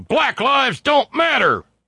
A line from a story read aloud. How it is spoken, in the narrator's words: he was screaming